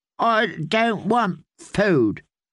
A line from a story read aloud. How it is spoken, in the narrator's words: the little lord said, in a reedy, petulant voice